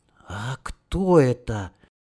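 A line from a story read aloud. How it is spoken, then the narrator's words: Soft breathy whisper. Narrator (Russian): тихонько выдохнул уже Сенька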